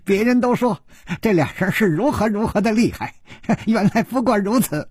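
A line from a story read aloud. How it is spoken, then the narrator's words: Giggling. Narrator (Chinese): 一个人咯咯地笑着说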